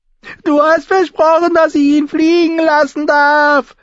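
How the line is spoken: Shouted at someone. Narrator (German): schrie der Lord über die Eyrie seine Mutter an

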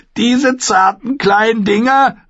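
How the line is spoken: Called out. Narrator (German): rief er

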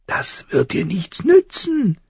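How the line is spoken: Crow croaking. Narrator (German): krächzte die Krähe

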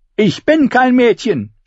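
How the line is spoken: Angry scream. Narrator (German): schrie sie wütend

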